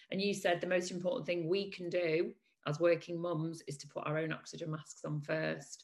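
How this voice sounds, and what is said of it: Hoarse, raspy voice. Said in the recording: “As you can hear, I'm at the back end of laryngitis as I record this now”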